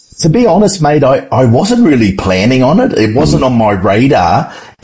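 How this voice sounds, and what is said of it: Distinct foreign accent. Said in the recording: “I love the accent.”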